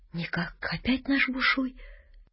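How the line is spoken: Whisper. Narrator (Russian): Горкин говорит, тоже шепотком

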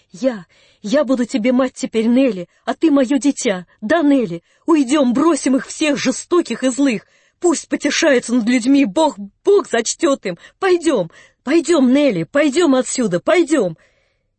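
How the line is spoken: Inspired shout. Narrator (Russian): Анна Андреевна закричала, как будто в каком-то вдохновении

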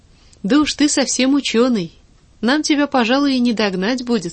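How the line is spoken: Plain. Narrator (Russian): сказала она

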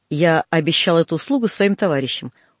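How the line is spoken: Cold. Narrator (Russian): холодно сказал

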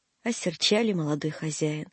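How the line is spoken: Sad speech. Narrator (Russian): грустно сказал Сидор

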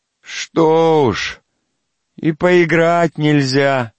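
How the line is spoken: Listless drawl. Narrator (Russian): Вяло протянула Варвара

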